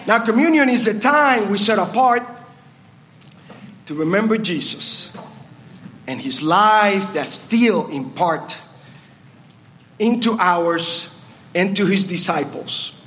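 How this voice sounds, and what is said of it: Puerto Rican accent. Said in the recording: “this Puerto Rican accent”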